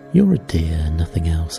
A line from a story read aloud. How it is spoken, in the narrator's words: answered Meg warmly